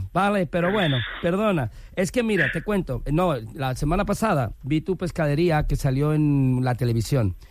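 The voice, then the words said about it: Put-on Galician accent. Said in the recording (Spanish): “pon acento galego ... ya se me centra el acento gallego”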